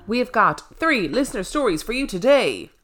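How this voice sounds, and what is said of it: Announcer voice. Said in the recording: “doing my announcer voice”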